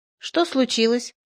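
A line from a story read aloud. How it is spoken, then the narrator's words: Calm question. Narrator (Russian): Флегонтов спокойно спросил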